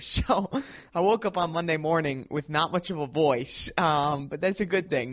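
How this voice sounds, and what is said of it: Hoarse, strained voice. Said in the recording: “my voice, if you can tell, is still a little bit hoarse”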